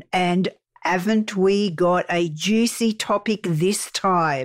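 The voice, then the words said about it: Put-on accent dropping H sounds. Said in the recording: “Did you just drop your H ... Your accent is so much better than mine.”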